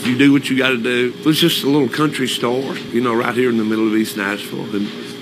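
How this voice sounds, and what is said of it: Man with a distinctive regional accent. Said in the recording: “I love this guy's accent.”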